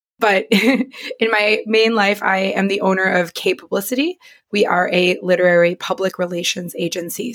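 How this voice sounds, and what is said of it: Raspy, hoarse voice. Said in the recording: “laryngitis survivor. So everyone give me a little bit of grace as I recover. My voice is normally not this, I don't smoke a pack a day. It's not this raspy.”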